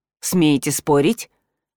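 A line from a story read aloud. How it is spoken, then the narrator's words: Cold curt remark. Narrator (Russian): Холодно бросил он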